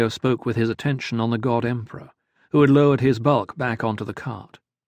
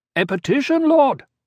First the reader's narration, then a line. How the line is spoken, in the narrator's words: the leaders cried